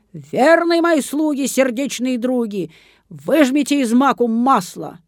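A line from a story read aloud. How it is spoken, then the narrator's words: Old woman shouting. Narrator (Russian): Старуха крикнула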